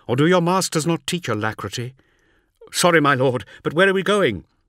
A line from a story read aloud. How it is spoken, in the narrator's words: snapped the warrior